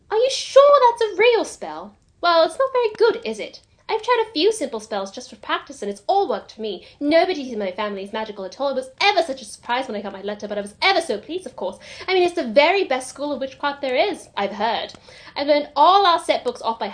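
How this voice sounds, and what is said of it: Rapid, half-baked British English accent. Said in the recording (Japanese): “すごい早口でね、ここ言うんだよね ... ちょっとモノマネできるか ... 中途半端なイギリスあまりでやってみましょうか”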